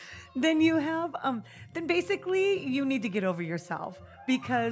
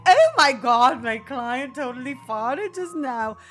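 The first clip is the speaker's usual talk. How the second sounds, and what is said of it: Snobbish put-on accent. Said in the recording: “What accent is that? ... That's a snobbish accent.”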